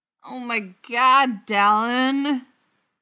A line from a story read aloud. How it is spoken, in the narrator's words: Brendan moans, burying her face in her hands